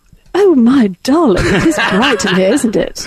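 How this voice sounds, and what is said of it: Put-on British accent. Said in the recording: “she wakes up and she's British ... do the British accent”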